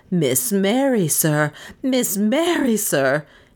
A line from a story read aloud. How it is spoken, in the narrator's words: he gasped